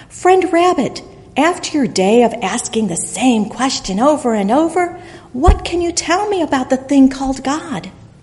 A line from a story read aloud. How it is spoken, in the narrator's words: its neighbor, the squirrel, called out from nearby